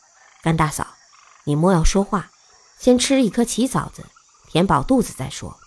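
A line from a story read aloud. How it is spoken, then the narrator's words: Low voice. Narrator (Chinese): 鬼谷子 低声道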